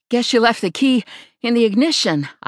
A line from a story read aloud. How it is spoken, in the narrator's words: said, gasping for air